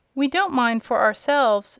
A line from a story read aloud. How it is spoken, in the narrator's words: said her aunt, tenderly